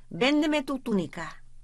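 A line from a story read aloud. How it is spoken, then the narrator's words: Shout. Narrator (Spanish): gritó el jefe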